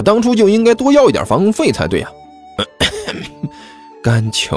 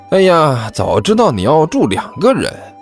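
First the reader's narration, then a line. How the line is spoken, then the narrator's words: Sighing. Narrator (Chinese): 甘球叹了口气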